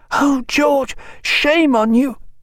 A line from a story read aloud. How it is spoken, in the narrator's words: hoarse with the effort, she added in little more than an ordinary shout